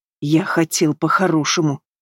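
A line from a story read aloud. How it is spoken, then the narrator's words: Hoarse. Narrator (Russian): Хрипит он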